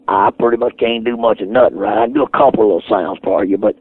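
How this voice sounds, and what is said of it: Hoarse, raspy voice. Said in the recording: “I'm almost hoarse. You're out of raspy. My voice is.”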